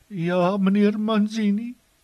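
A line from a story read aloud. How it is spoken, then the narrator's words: Sobbing. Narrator (Afrikaans): snik sy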